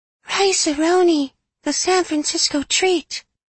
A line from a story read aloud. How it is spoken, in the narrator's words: that boy would sing, his voice high and ethereal